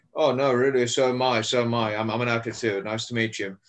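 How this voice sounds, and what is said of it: Put-on British accent. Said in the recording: “that's my British accent, by the way. I can pass out for a British guy.”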